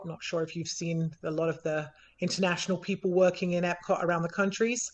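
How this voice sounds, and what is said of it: English accent. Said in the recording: “I am actually from England, as you might be able to tell by my accent.”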